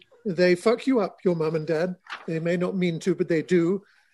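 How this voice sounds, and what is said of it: British accent. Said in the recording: “that great accent ... because he's British”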